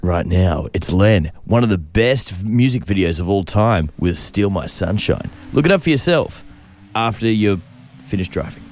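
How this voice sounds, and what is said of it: Tough car commercial announcer voice. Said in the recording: “my voice to sort of get into the sort of tough capability, like the commercial, car commercial voices ... Could you introduce a new song with that accent?”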